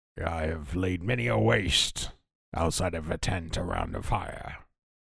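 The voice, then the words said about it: Weird barbarian character voice. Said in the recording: “your voice is kind of weird.”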